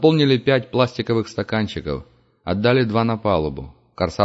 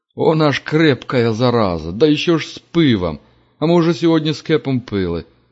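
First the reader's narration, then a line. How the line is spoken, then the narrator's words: Grumbling. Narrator (Russian): проворчал Кутняк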